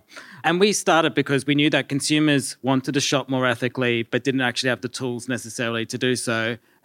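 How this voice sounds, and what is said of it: Australian accent. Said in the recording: “We started in Australia, if you can't tell by my accent”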